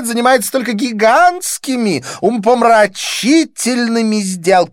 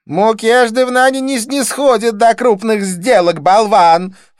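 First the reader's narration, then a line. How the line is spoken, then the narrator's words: Snorted. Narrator (Russian): фыркнула Дива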